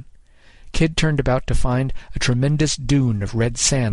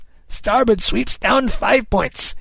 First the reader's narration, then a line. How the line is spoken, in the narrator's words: Kid cried